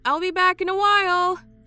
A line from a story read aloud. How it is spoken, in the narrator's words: she called out again